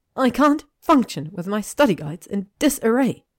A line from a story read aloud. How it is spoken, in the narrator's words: Hermione cried